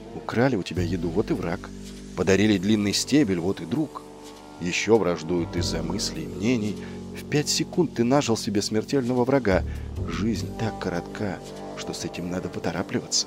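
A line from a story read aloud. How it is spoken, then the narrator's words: Feverish whisper in ear. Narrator (Russian): она лихорадочно шептала ему на ухо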